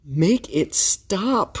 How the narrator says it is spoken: cried Pharaoh

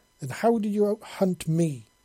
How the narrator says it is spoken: she exclaimed loudly

